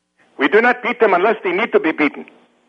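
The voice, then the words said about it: Fake foreign accent. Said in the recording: “I can hear it's a fake voice. It's a fake voice, the whole thing. ... break out into your regular American voice ... I can hear a fake accent when it's thrown at me.”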